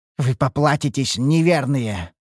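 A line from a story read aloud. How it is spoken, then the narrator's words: Dark one's growl. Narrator (Russian): рыкнул темный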